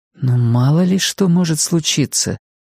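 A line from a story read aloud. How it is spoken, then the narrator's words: Soft remark. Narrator (Russian): мягко заметила она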